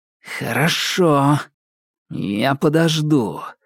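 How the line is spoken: Angry hiss. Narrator (Russian): зло прошипел Андрей

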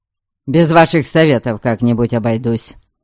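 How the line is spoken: Irritated snapping. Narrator (Russian): Не выдержав, огрызнулся Дориан

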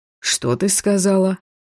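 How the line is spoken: Suspiciously even tone. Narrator (Russian): подозрительно ровным тоном переспросил Шейн

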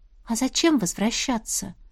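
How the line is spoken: Quiet question. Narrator (Russian): тихо спросила она

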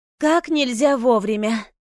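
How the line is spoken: Relieved exhale. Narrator (Russian): облегченно выдохнула

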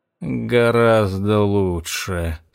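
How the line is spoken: Sleepy reply. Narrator (Russian): сонно отозвался Эш

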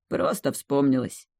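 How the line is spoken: Muttering under breath. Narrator (Russian): пробормотал Роган себе под нос

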